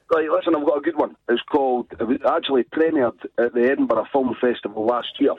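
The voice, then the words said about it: Scottish accent. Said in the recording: “It sounds so much better in a Scottish accent.”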